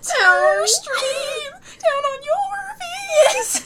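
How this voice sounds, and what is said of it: Exaggerated mock-sad weird voice. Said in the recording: “Brenna does this, like, one weird voice all the time, where, like, she does, like, this, like, when something sad, like, not really sad happens”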